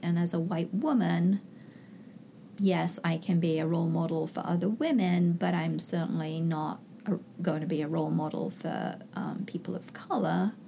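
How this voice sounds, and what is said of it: Foreign accent. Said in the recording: “I have this funny accent, so I'm clearly from another culture”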